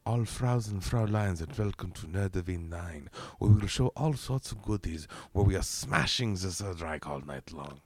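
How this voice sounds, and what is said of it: Bad put-on German accent. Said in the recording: “a bad German accent?”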